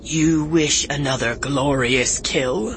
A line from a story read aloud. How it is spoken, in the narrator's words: Akoba sneered